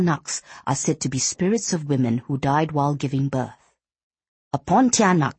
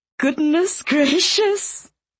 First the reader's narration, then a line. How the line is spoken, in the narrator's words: Facility giggled